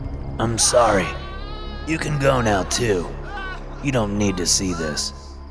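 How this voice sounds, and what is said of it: Usual voice. Nothing is said of it.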